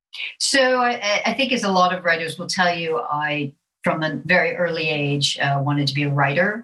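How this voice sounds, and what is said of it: American accent. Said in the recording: “as you can hear from my accent, I am an American and I'm a native Floridian”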